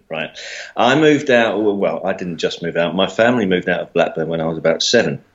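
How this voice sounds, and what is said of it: Mockney English accent. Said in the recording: “Despite my Mockney accent”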